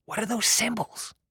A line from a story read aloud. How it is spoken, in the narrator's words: asked in a whisper